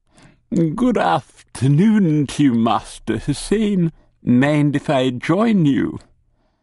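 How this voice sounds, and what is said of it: Plummy upper-class English accent. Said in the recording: “his current assumed accent, plummy upper-class twit”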